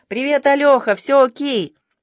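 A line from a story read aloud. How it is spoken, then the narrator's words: Forced enthusiastic shout. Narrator (Russian): Я со старательным энтузиазмом прокричал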